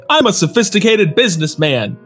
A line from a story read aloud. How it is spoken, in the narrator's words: Haltman exclaimed as he struggled to break free